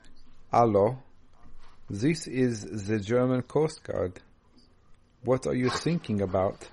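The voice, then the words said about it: Put-on German accent. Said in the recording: “German accent. ... You want me to say it in a German accent?”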